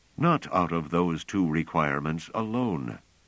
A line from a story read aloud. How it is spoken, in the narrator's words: said Pellerat